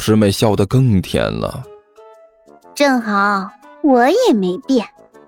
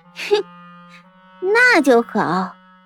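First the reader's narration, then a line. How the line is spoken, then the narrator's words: Forced laugh. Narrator (Chinese): 齐剑干笑着说道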